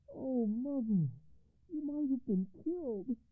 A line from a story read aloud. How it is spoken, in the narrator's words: cried the commander